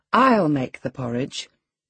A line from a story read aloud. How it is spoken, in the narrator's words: crying out sharply